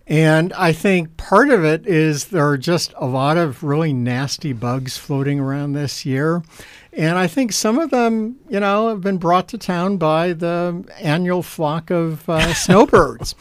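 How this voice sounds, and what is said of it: Sick-sounding voice. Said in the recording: “as you can probably tell from my voice, yep. I got nailed too.”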